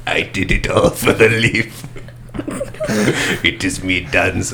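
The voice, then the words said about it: Villainous character voice, light Palpatine. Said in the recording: “I think that's a good impression ... It's like a light Palpatine ... It is Palpatine light”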